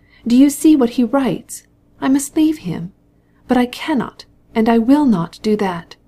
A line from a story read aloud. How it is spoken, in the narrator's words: she cried